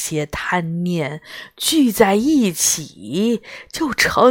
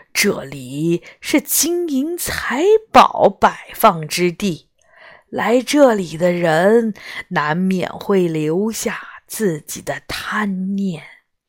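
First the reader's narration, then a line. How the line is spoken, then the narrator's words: Cold sneering laugh. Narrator (Chinese): 魔王冷笑一声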